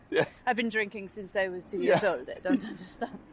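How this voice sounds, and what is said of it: Put-on French accent, poorly done. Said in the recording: “Excellent accent. ... That was terrible. Terrible. I apologise, French people.”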